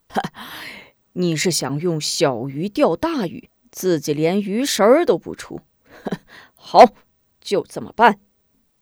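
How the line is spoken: Grinning. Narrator (Chinese): 边豪咧嘴一笑

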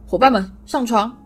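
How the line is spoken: Sudden shout. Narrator (Chinese): 木头突然站起来喊道

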